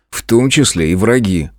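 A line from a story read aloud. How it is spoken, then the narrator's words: Smirking. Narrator (Russian): хмыкнул я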